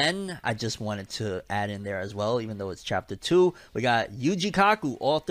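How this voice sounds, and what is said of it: Usual voice. Nothing is said of it.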